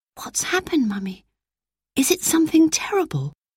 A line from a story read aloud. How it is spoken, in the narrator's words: Roberta whispered to her mother